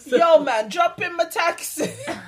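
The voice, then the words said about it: Bad put-on Jamaican accent. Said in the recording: “he had the worst Jamaican accent ... He was definitely a white guy.”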